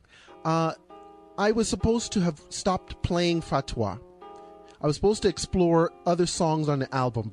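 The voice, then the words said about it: Strained voice, nearly lost. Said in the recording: “My voice, I'm almost losing my voice there.”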